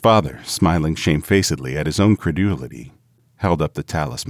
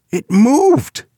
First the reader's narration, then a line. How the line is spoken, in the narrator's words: he cried with a glance of disgust